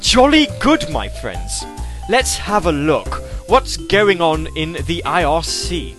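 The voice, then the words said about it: Posh British accent. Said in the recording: “me doing a rather proper posh British accent”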